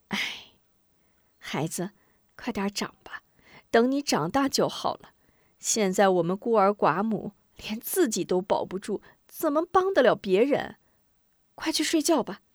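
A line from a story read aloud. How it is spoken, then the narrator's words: Helpless sigh. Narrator (Chinese): 吴夫人无能为力的叹了口气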